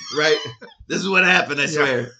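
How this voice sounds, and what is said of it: Gravelly New York accent. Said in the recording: “I give him this voice. ... It's kind of like a gravelly New Yorker.”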